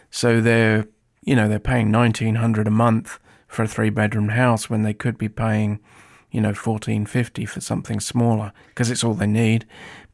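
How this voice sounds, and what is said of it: Non-American foreign accent. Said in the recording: “if you can't already tell by ... accent, he is not American born”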